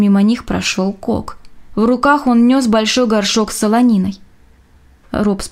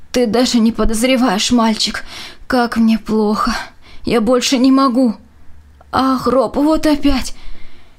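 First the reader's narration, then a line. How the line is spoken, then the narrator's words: Moaning and groaning. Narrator (Russian): застонал и заохал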